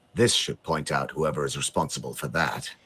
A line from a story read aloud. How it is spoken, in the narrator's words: he murmurs